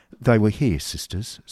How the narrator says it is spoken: said the older lady in a trembling voice

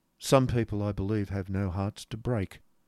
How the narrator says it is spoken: observed Nicholas quietly

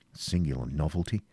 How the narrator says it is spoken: muttered the knight

